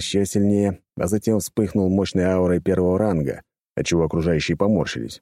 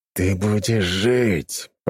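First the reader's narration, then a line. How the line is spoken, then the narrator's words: Loud hiss. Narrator (Russian): прошипел Евгений так, чтобы услышали все вокруг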